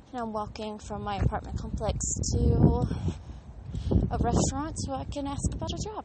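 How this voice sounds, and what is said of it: Out of breath while speaking. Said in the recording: “sorry if I'm out of breath, it's because I'm walking”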